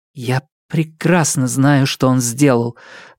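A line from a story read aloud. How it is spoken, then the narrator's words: Trembling voice. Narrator (Russian): дрогнувшим голосом ответила Нелит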